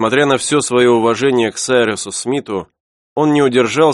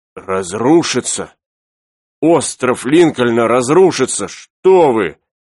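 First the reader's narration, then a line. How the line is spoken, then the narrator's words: Exclaimed. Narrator (Russian): воскликнул Пенкроф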